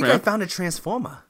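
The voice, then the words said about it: Boston accent, imitates another person's voice. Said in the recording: “Are you from Boston? ... That was like Mark Wahlberg. ... It's Mark Wahlberg.”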